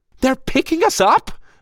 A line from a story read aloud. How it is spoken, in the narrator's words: Michelle squealed